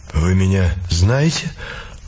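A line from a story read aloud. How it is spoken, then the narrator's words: Weary question. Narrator (Russian): устало спросил он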